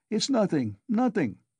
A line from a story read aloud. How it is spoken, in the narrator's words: he cried to the mother and sister